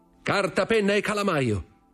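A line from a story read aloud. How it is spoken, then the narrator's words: Shouted in turn. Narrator (Italian): gridò a sua volta Fernand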